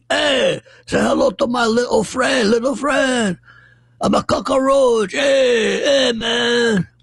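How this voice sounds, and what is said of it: Bad imitation of a Cuban accent. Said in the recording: “this is the worst Cuban accent I've ever heard in my life”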